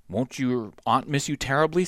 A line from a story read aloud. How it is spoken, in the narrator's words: said Aunt Emmy gravely